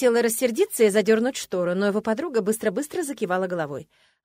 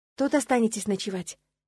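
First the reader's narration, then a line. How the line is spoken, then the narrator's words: Quiet question. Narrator (Russian): тихо спросила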